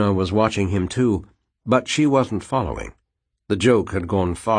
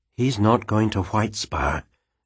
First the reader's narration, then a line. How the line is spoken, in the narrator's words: she said quietly